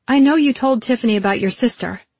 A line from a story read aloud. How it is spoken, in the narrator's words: I blurted